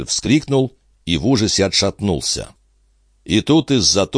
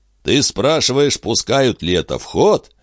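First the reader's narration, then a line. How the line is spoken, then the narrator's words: Cheerful. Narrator (Russian): весело откликнулся конюх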